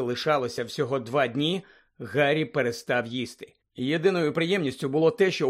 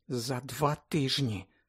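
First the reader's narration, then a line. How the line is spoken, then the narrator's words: Whispered. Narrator (Ukrainian): прошепотіла Герміона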